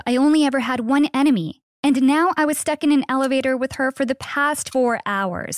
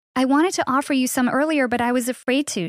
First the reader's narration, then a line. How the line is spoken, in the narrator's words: she said